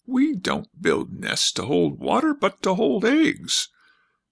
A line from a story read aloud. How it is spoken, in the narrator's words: she squeaked out